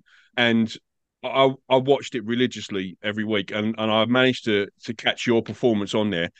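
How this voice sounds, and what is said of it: English accent. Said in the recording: “You probably guessed from my accent, I'm not an Australian. I'm English. I grew up in England.”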